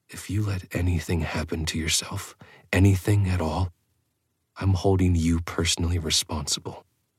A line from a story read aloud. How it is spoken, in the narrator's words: I said softly